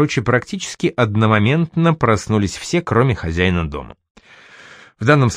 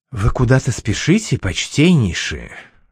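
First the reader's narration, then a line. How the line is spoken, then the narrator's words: Whispered question. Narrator (Russian): шепотом уточнила Аль-Дюбина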